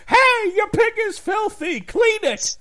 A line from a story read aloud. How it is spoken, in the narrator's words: like he just yelled from across the store